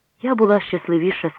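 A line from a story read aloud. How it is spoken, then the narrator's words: Plain. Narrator (Ukrainian): сказала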